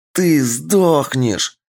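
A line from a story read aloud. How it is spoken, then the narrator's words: Hoarse, straining rasp. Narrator (Russian): хрипела она, выдавливая ему глаза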